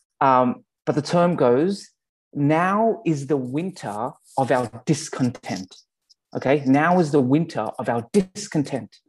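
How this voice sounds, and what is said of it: Australian accent. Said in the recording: “thanks to my Australian accent”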